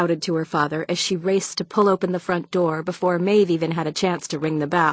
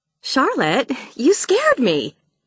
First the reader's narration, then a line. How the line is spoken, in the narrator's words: exclaimed